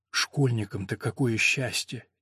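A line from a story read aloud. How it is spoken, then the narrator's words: Quiet. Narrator (Russian): тихонько сказал Люк Теодоре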